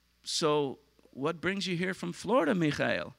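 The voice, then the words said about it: Imperfect put-on Israeli accent. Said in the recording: “I probably have to work on my Israeli accent”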